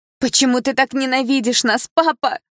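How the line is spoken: Shouted after someone. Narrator (Russian): крикнула она ему вслед

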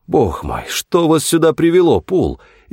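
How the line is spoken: Astonished exclamation. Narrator (Russian): изумленно воскликнул нотариус

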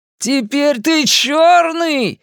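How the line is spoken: Jubilant shouting. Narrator (Russian): ликующе кричал Генри

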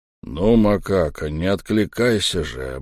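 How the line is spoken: Deep bass, chief bandit. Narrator (Russian): басил самый главный бандит

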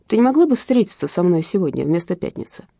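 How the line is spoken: Plain. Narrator (Russian): спросил отец

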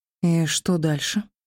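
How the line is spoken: Quiet question. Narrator (Russian): тихо уточнила

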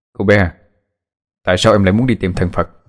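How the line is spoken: Quiet voice. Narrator (Vietnamese): Phượng Thánh nhỏ giọng nói

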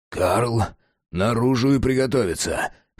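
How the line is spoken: Hoarse whispered order. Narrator (Russian): хриплым шепотом приказал Джек

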